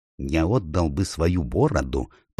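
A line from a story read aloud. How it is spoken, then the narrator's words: Whispered. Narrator (Russian): прошептал Поггин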